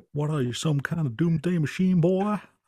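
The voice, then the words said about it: Poor imitation of a character's accent. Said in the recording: “a full-on J.W. accent ... That's my terrible attempt.”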